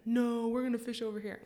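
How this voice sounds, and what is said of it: Imitates another person's voice. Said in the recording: “That's a pretty good impression of Zach”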